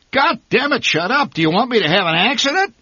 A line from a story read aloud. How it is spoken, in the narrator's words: My father bellowed